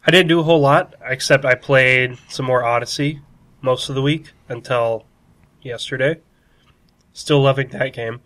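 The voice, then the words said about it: Nasal, congested voice. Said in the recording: “my voice is a little nasally this week, more than usual, because I've been kind of getting over sickness”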